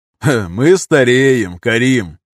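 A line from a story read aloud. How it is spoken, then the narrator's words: Cheerful snort. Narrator (Russian): неожиданно весело фыркнул Нардин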